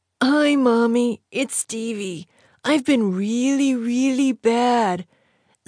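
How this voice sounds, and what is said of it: Man poorly imitating little boy's voice. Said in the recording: “said a grown man, failing miserably at imitating a little boy.”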